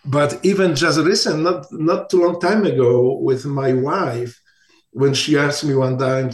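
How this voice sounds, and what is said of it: Non-native English accent. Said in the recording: “English is still a challenge for me. It is still, you can hear from my accent, maybe because when I learned English, I was already 24 years old”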